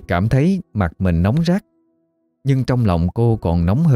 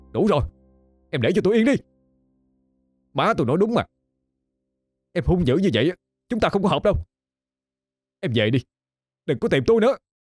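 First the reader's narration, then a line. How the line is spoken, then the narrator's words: Angry shout. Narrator (Vietnamese): Khải quát lên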